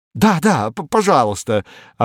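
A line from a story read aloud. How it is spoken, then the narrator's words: Joyful exclamation. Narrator (Russian): обрадованно воскликнул капитан третьего ранга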